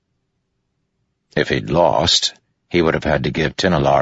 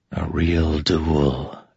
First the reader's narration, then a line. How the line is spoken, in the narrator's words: Adolin whispered